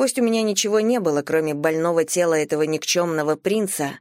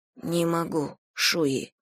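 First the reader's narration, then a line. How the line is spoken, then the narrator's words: Quiet. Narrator (Russian): тихо сказала я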